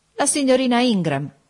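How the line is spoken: Widow exclaiming. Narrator (Italian): esclamò la vedova

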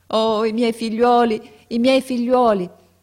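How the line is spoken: Exclaimed. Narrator (Italian): esclamava

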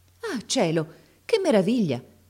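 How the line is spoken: Exclaiming. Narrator (Italian): esclamò allora

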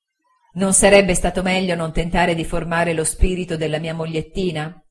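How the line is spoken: Laughing at oneself. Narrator (Italian): dissi, ridendo di me

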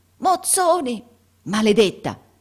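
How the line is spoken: Roaring thief. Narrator (Italian): ruggì il ladro, riconosciuto

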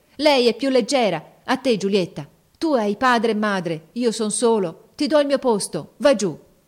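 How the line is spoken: Shouting in an altered voice. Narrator (Italian): Mario, con una voce che non parea più la sua, gridò

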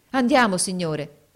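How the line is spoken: Enthusiastic exclamation. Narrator (Italian): esclamò egli con trasporto

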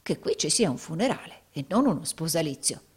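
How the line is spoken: Cautious low voice. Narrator (Italian): disse Rodolfo, parlando suo malgrado sottovoce e guardingo

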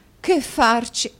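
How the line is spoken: Exclamation. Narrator (Italian): esclamò la signora Nickleby

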